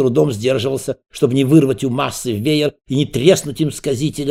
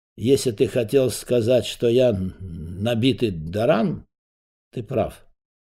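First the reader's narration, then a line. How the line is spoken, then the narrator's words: Nobleman's glum remark. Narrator (Russian): благородный муж уныло обронил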